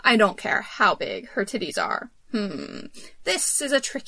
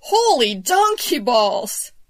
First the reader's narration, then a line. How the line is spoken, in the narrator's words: I yelped